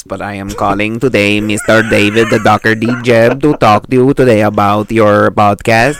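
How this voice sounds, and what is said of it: Put-on Filipino English accent. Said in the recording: “like a Filipino person speaking English... I love the Filipino accent.”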